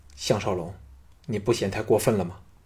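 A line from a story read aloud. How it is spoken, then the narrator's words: Low, displeased voice. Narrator (Chinese): 平原夫人皱眉大皱，低声说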